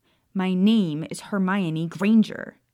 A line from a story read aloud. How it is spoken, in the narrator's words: she said firmly